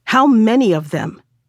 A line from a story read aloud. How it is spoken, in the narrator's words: he cried